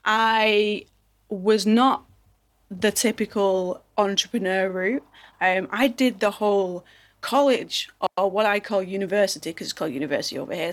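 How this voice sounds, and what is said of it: English Manchester accent. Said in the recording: “in case you haven't noticed from my accent, I am not American. I am from over the pond, over in sunny England ... I'm from a place called Manchester.”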